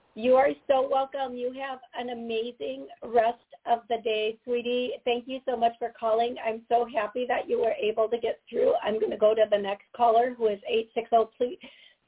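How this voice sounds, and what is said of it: Voice sounds unwell, slightly off. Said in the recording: “Please forgive my voice today. I've been having a little stuff going”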